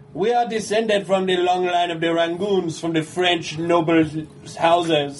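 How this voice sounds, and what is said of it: Put-on accent. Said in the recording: “How come he has an accent now?”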